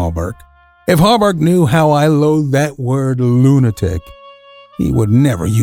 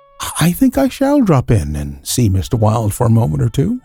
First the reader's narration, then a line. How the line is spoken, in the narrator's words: I answered him quietly